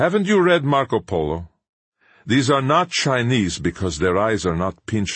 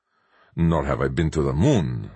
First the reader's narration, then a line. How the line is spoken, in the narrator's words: murmured Sanchez